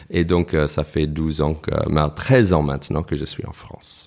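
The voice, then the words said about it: Slight American accent speaking French. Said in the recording (French): “à ton petit accent, tu es ... tu, es américain I am American, oui. Donc je suis new-yorkais même.”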